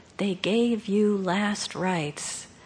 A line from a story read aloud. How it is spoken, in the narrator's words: He whispered